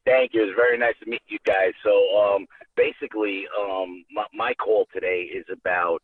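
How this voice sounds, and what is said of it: Bronx New York accent. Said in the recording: “the accent was very ... you do sound like the Bronx”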